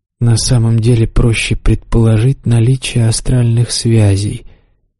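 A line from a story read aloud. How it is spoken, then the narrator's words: Quiet demon voice. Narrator (Russian): тихо сказал демон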